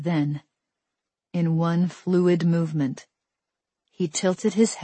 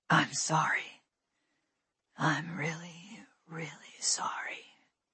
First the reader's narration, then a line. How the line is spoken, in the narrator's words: he whispered